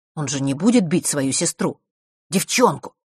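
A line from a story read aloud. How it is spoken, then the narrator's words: Irritated snort. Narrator (Russian): Марк раздраженно фыркнул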